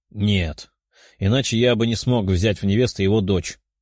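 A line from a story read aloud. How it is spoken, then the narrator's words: Calm reply. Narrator (Russian): спокойно ответил тот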